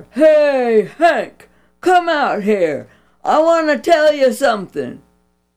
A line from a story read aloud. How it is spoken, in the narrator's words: Outside, Bobby Jack hollered